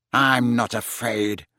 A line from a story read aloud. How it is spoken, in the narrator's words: snarled Malfoy